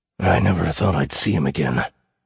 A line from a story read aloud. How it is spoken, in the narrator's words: Tidal said, his voice rough